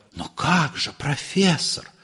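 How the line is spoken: Soft whisper. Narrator (Russian): Мягко шепнул Бронский

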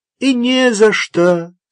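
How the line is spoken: Calm reply. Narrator (Russian): спокойно ответил ей лейтенант Грошев

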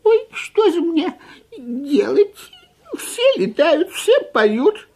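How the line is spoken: Sobbing. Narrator (Russian): всхлипывал он

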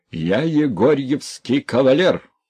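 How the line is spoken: Old man shouting. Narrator (Russian): кричал старичок

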